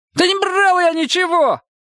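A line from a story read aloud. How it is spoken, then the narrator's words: High-pitched shout. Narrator (Russian): тонко выкрикнул он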